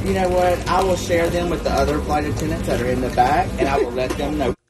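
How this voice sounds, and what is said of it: Southern American accent. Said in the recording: “a good Southern accent. ... I love a good Southern accent.”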